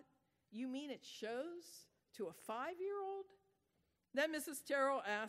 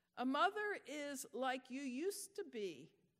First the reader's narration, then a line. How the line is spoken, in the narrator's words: Rachel said